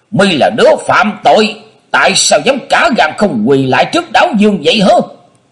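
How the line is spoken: Loud scolding shout. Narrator (Vietnamese): Mình đấu trợn trừng to tiếng quát nạt

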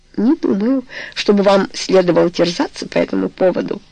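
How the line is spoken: Laughing. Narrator (Russian): сказал Роберт, смеясь

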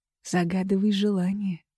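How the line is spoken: Whisper. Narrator (Russian): шепчет

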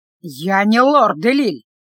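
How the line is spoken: Growled. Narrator (Russian): прорычал тот

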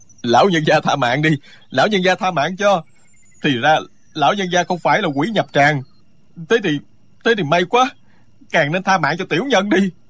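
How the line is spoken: Loud terrified pleading. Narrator (Vietnamese): Người kia toàn thân tê dại, lớn tiếng van xin

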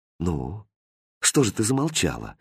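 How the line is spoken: Quiet question. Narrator (Russian): тихо спросил Хрустальд

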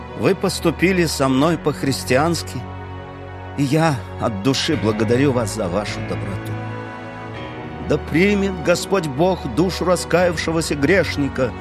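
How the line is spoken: Plain. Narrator (Russian): сказала Эдит

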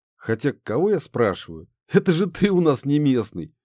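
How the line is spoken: Dentist laughing. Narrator (Russian): засмеялся дантист

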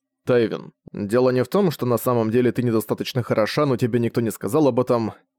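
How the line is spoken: Plain. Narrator (Russian): сказал Зориан

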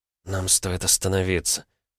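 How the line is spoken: Whispered. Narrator (Russian): прошептала Лера

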